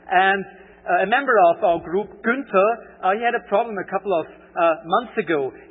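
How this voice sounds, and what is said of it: Austrian German accent in English. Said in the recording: “I have a strange, pronunciation thing going on, a strange accent. ... my native language is German, or actually Austrian German.”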